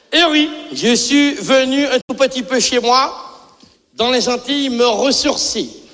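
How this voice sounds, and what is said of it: Speaker's own regional accent. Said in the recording (French): “j'excuse un peu l'accent”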